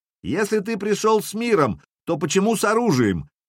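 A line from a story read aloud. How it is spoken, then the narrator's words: Shouted. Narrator (Russian): крикнул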